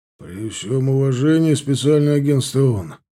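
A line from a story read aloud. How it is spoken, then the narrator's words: Low bass voice. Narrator (Russian): начал он низковатым басом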